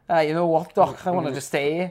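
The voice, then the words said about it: Poor put-on Liverpudlian accent. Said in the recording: “my appalling Liverpudlian accent”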